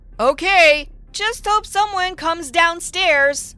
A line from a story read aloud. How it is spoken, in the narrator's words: To give the boy a sign, I said loudly